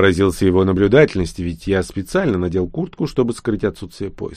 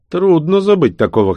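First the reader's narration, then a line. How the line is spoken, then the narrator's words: Wry snort. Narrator (Russian): хмыкнул король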